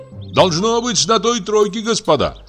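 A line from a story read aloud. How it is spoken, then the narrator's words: Shouted. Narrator (Russian): крикнул Егор Егорыч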